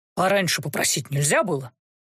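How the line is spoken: Reluctant grumble. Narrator (Russian): буркнул повар, с неохотой

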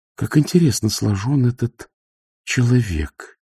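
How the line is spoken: Quiet. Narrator (Russian): тихо сказала Сибилла

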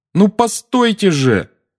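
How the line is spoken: Shouting after someone. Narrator (Russian): крикнул Гарри ей вслед

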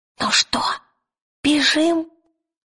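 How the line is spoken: Whisper. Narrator (Russian): шепнул он

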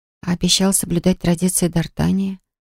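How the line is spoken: Suddenly hoarse whisper. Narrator (Russian): прошептала я внезапно охрипшим голосом

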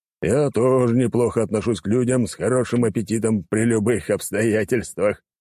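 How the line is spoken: Chuckle. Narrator (Russian): хохотнул граф

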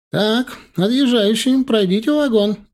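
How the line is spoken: Shouted. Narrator (Russian): крикнула проводница

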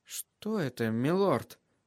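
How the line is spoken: Whisper. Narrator (Russian): прошептала Шая

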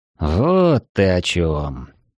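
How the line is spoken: Drawn-out drawl. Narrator (Russian): протянул я

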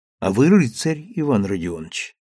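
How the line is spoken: Tender female voice from behind. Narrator (Russian): нежно сказала позади него Сима

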